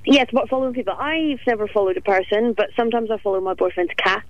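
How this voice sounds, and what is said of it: Speaks with a distinctive accent. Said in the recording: “we've got the same kind of accent ... with the nice accent”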